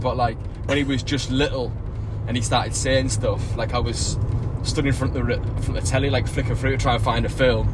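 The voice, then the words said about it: Thick northern English accent. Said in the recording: “I imagine quite a thick northern accent”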